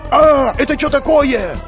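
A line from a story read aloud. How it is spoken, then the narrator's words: Yelling. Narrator (Russian): Заорал я следом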